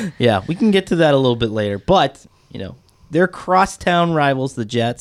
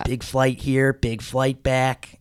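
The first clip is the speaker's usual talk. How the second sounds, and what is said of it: Imitates another person's voice. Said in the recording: “Pretty good impression.”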